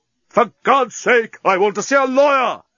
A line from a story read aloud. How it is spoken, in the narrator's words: Leovinus screamed at the top of his voice